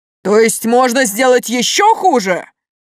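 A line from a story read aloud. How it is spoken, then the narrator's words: Roared. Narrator (Russian): Взревел король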